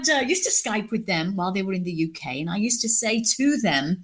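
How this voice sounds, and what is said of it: British accent. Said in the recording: “as you can tell from my accent, I'm British.”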